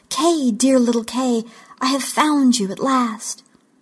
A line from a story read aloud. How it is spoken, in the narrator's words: she exclaimed